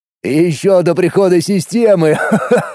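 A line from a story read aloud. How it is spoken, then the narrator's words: Chuckle. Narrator (Russian): Хохотнул Молот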